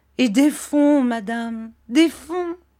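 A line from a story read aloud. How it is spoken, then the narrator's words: Gloomy exclamation. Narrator (French): s'écria monsieur Micawber d'un air sombre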